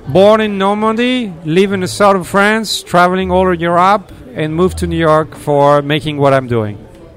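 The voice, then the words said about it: Foreign accent in English. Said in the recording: “I think we had some good accents today, but I think you're my favorite accent of the day.”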